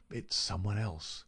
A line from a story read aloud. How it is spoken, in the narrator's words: he muttered